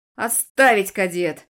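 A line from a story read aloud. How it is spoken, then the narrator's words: Barked command. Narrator (Russian): рявкнул мастер Тиртон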